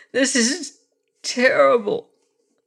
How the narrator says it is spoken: wailed the young prince, ready to weep at his loss

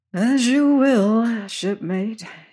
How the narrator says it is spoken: sighed

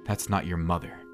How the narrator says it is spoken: she mumbled

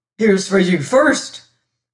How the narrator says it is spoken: gasped Humphrey

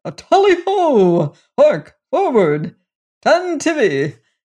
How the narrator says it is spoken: The prince shouted

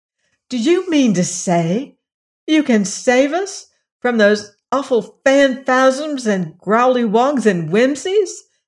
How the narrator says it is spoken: asked Dorothy eagerly

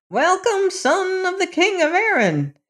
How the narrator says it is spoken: she cried

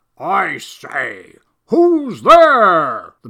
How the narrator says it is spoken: the man bellowed down

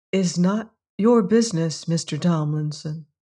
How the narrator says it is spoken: said Hetty quietly

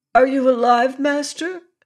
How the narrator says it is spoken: Waska called out in an anxious voice

